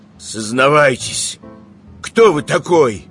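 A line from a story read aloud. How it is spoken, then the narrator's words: Muffled question. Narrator (Russian): глухо спросил Иван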